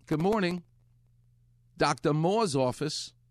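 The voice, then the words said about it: Imitated New York accent, dropped R. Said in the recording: “a lovely New York accent ... if you're from New York, the R doesn't exist ... There's no R.”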